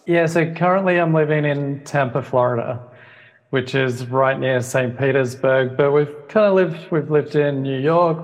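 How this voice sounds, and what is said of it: Australian accent with slight American tinge. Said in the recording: “a fellow Aussie ... a bit of an American tinge come out in my accent”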